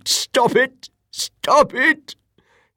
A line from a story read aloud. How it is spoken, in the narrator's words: The old man shrieked